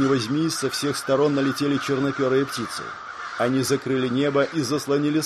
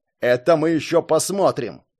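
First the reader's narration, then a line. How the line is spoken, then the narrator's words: Angry shout. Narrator (Russian): Зло выкрикнул Браннан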